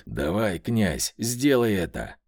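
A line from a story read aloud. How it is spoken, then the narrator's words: Low muffled growl. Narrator (Russian): прорычал он глухо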